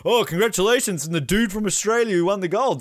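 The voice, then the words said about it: Shaun White impression. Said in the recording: “best Sean White impression I've ever heard”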